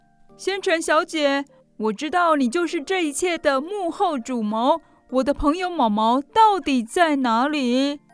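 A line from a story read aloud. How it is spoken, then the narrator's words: Loud shouting. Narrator (Chinese): 阿帕卡鸠在目瞪口呆的观众前大叫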